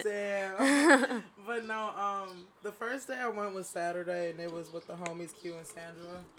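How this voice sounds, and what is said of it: Hoarse, mostly lost voice. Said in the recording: “sorry, like, my voice is, like, gone right now”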